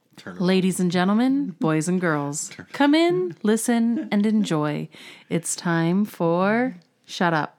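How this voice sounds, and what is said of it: Announcer-style radio voice. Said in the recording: “put on my radio voice.”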